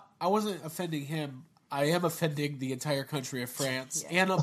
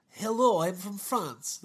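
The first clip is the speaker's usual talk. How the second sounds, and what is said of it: Put-on French accent, sounds Russian. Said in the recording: “That's my French accent. ... It's super Russian.”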